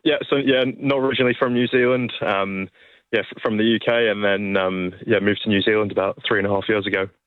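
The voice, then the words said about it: Slight non-local accent. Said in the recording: “Is that a little bit of a little bit of an accent I recognise? Oh, I sense or hear there?”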